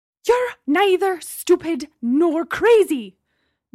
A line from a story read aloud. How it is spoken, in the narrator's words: Gemma shouted, returning to her previous rage